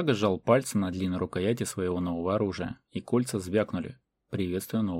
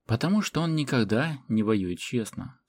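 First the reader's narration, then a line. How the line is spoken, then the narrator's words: Calm reply. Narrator (Russian): спокойно ответил Седой Ворон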